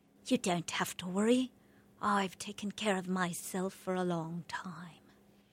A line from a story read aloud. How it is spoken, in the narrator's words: I channeled Holly Golightly once more, English accent and all, whispering